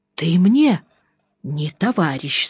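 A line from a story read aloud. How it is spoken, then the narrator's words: Quiet. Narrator (Russian): сказал тихо Жеглов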